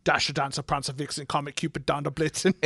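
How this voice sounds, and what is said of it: Arnold Schwarzenegger accent impression. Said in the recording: “you can only say it with that accent. ... I can only say it with Arnold Schwarzenegger's accent.”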